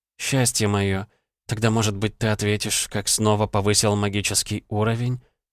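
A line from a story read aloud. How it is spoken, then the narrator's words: Purring in the ear. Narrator (Russian): мурлыкнула вампирша мне на ухо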